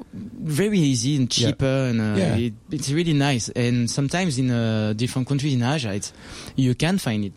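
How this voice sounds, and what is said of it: French accent. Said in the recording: “Your accent drives me absolutely crazy... that French accent of yours is sexy”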